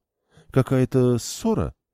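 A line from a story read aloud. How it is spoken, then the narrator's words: Uncertain. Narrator (Russian): неуверенно ответила Карен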